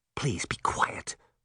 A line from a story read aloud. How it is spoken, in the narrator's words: Sabrina whispered into her sister's ear